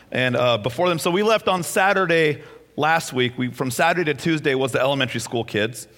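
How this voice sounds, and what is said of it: Strained, worn-out voice. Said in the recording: “my voice is kind of on the fritz right now, because I've been screaming at them all week”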